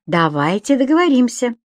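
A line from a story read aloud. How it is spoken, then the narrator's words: Cheerful. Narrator (Russian): весело сказал Виктор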